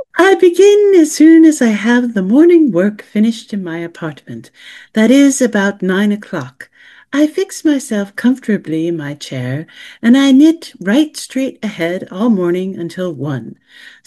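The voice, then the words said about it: Reading a quote in a put-on accent. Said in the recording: “I'm going to have a little accent here.”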